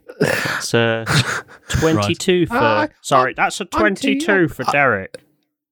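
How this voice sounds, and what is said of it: Role-playing character voice. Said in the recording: “in your character voice”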